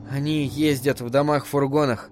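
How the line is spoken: Absent-minded mutter. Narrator (Russian): рассеянно пробормотала Абра

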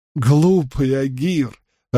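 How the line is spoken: Joyful laughter. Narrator (Russian): радостно смеялся Перрин

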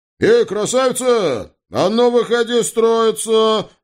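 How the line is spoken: Booming loud roar. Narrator (Russian): зычно взревел бывший помощник прокурора

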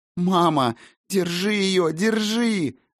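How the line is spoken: Desperate anguished wail. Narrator (Russian): Отчаянно, с надрывом, даже не выкрикнула, а взвыла Айсонна

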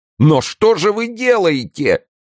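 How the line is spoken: Terrified shout. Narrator (Russian): закричал перепуганный насмерть Безмо

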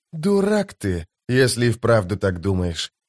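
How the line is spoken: Gruff mutter. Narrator (Russian): буркнул Кальп

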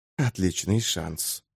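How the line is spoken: Very quiet. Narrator (Russian): сказал кто-то, но так негромко

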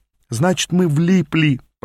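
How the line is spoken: Groaning. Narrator (Russian): простонал я

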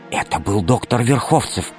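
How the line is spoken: Whisper. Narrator (Russian): прошептала Алиса

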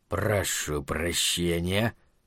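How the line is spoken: Soft ingratiating voice. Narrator (Russian): тихонько вкрадчиво сказал

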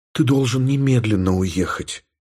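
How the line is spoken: Whisper. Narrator (Russian): прошептала Елена

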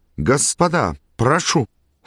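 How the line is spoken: Trembling exclamation. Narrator (Russian): секундант дрожащим голосом воскликнул

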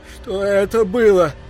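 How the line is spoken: Pleading. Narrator (Russian): взмолился Гарольд

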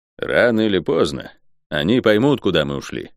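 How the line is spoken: Grim. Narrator (Russian): мрачно сказал Кальн

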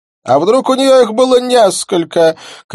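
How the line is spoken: Woman shouting. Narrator (Russian): крикнула одна из следачек

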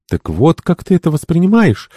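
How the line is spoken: Excitable exclamation. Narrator (Russian): воскликнула ее так легко возбуждающаяся подруга

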